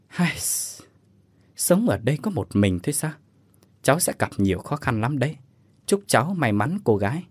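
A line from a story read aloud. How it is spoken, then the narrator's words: Old woman sighing softly. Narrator (Vietnamese): Bà bán hàng khẽ thở dài mà nói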